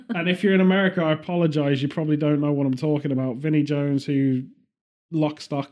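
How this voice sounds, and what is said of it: British accent with Birmingham twang. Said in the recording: “I have a bit more Brummy twang now than I've had for many years because I've been back here”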